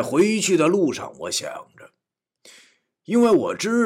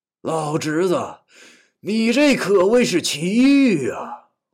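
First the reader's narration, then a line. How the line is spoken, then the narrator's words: Amazed exclamation. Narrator (Chinese): 刘二叔惊叹道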